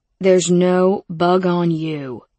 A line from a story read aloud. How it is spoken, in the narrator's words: he said slowly, like he was speaking to an idiot